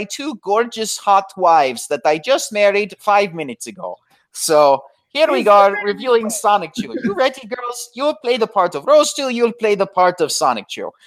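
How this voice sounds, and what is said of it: Put-on Italian accent. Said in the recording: “You have these accents down to a T. ... People are saying that's my Italian accent.”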